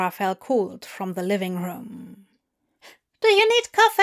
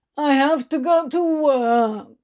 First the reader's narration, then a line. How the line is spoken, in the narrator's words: Crowley whined